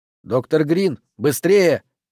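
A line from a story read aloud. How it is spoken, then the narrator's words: Shout. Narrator (Russian): крикнул Пендергаст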